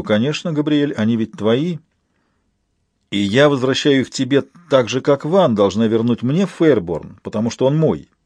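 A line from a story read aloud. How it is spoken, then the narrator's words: Solemn tone. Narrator (Russian): торжественным тоном говорю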